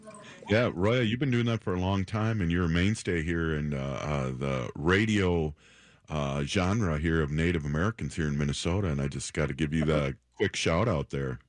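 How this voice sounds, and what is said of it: Deep baritone voice, sounds congested. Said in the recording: “that deep baritone basso voice of yours ... because I have a cold”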